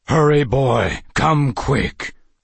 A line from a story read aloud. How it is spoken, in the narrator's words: a deep voice boomed